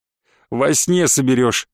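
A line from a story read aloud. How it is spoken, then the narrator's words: Laughing. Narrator (Russian): рассмеялся Вадим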